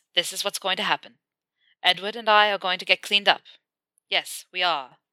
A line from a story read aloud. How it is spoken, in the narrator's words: he says firmly